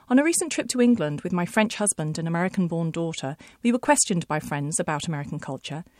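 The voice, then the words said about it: British accent. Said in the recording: “you have probably gathered that I am British simply by my accent”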